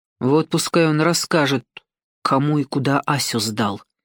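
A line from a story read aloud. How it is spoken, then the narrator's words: Mutter. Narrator (Russian): буркнул он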